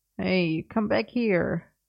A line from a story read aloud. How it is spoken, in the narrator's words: Merlin grumbled